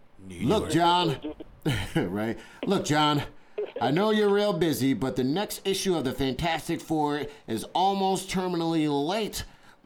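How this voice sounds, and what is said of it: Imitates a white man's voice. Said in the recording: “Stan Lee impersonation ... This is the white man's impersonation”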